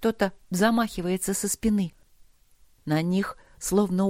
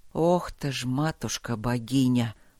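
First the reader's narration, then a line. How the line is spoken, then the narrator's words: Astonished gasp. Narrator (Russian): пораженно выдохнул мастер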